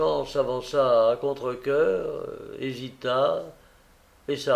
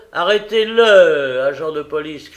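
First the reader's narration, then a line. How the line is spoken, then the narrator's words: Shouting. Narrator (French): cria Holmes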